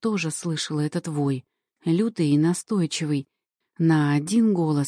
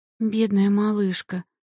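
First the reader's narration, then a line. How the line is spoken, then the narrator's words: Rueful sigh. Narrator (Russian): сокрушенно вздохнула одна из них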